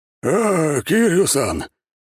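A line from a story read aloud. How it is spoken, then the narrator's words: Panting with effort. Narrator (Russian): пропыхтел тащий аж двух хрипящих парней Жирный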